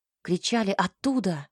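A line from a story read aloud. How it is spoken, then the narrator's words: Exclamation. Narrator (Russian): воскликнул Кей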